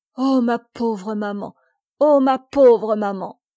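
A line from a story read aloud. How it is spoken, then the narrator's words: Weeping, desolate moaning. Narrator (French): elle se remit à pleurer, et gémissant d'un ton navré, d'un ton de plainte désolée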